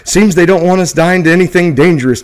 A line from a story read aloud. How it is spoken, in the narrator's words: Campbell laughed